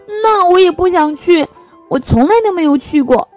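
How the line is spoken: Loud. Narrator (Chinese): 特特大声说

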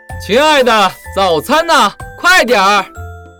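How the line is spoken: Loud shout. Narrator (Chinese): 朱先生总是大声地喊

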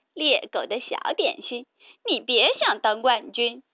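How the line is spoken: Teasing. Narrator (Chinese): 哥哥们取笑他

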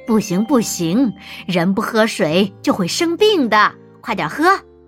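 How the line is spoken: Mischievous smirk. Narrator (Chinese): 柚子坏笑着

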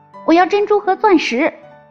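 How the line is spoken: Calling out. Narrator (Chinese): 第二个叫道

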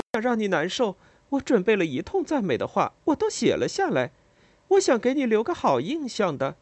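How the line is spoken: Laughing. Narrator (Chinese): 他笑了，说

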